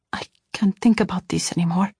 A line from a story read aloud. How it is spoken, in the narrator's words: I whispered